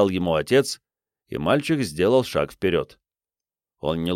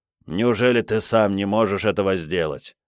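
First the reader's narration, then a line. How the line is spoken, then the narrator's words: Grumbled. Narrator (Russian): проворчал Брайан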